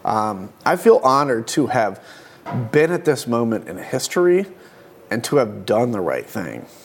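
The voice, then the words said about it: Emotional, slightly choked-up voice. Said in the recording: “you're getting a little emotional ... Just a little.”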